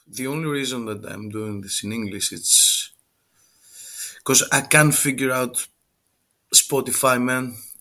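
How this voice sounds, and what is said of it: Strong Greek accent in English. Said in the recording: “a Greek guy with a terrible accent”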